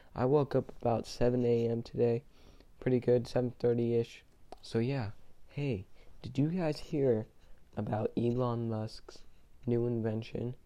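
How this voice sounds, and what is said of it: Tired-sounding voice. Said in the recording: “sorry if I sound a little tired. I'm not sick or anything, I'm just tired.”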